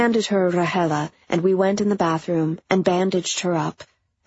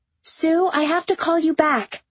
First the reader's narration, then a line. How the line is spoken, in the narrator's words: she said loudly at the phone now on the floor